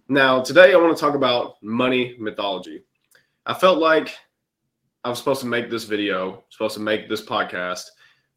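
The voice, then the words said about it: Congested, stuffy-nosed voice. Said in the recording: “I've been a little bit under the weather, so if I sound different, if I sound as if maybe I've got a stuffy nose, then yes, you would be correct.”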